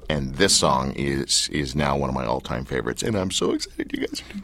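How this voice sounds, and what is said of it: Choked-up, emotional voice. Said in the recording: “My voice just got verklempt.”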